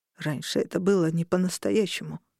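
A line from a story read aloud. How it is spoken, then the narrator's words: Quiet. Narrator (Russian): тихо произнес он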